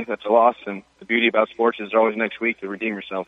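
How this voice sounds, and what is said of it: American Californian accent. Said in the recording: “You're good old American, huh? ... No accent for me. I'm from California”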